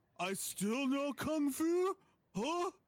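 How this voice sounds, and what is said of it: Poor imitation of another person's voice. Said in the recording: “worst Keanu impression I've ever heard”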